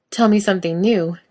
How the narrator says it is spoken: Jared replies, laughing again

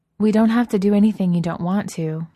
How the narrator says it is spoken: Vivian said quickly

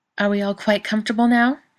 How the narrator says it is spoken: Katie asks sharply

